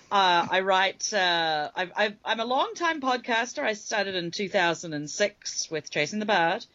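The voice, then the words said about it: New Zealand accent. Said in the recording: “I was born and raised in New Zealand, though, and I've been here now 7 years. ... So I worry about my accent.”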